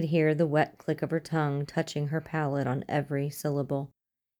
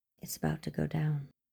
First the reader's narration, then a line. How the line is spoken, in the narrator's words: whispered in his ear